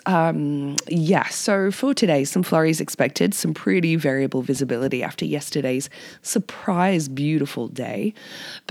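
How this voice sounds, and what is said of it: Raspy, hoarse voice. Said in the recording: “Sorry for this uh, raspy voice”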